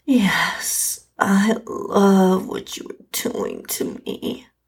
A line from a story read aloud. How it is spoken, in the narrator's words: I moaned out in response